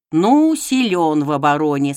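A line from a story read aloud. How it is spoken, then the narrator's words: Plain. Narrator (Russian): сказал он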